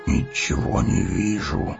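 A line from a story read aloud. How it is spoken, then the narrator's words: Grumbling. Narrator (Russian): проворчал Гимли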